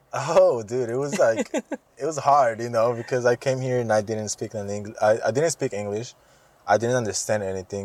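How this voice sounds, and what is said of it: Noticeable foreign accent in English. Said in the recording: “I still have an accent”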